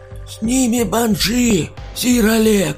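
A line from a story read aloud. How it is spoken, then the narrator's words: Old man shouting from above. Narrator (Russian): крикнул плюгавый с неопрятной бородой старик сверху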